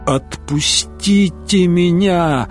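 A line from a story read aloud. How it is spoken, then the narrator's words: Groaning in pain. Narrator (Russian): Рейнован застонал, потому что вожжи болезненно врезались в суставы рук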